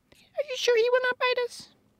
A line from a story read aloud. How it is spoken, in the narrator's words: the Queen of the Mice asked in a timid voice